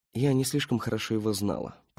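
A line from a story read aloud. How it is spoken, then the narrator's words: Muttered, woman. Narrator (Russian): пробормотала женщина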